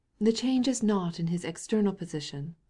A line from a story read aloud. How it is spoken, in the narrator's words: said the Countess, solemnly